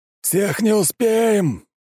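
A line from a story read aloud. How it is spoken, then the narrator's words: Shouted into ear. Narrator (Russian): прокричал на ухо Щербаков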